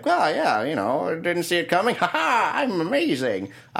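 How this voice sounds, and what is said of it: Impression of the character Aoife. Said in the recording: “That was my impression of her. It was very spot on.”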